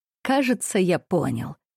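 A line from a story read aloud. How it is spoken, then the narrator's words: Grimly brightening. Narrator (Russian): мрачно просиял Леонтий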